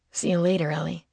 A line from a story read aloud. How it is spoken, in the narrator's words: Gage said, his voice a bit silkier than usual